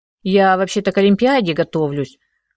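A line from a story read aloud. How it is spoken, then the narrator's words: Boy mumbling grumpily. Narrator (Russian): пробурчал мальчишка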